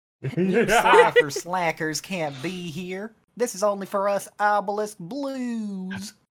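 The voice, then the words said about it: Heavy put-on Southern accent. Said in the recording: “just the most heavy Southern accent”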